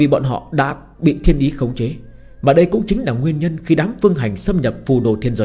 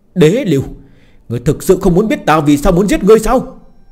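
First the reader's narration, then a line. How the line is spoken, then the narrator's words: Loud shout. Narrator (Vietnamese): Một tiếng hét lớn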